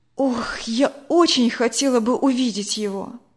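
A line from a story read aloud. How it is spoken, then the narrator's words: Wistful sigh. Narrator (Russian): вздохнула Надя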